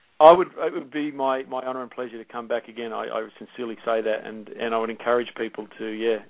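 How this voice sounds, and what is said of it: Australian accent. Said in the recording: “There's something just so exceptionally friendly and inviting about an Australian accent.”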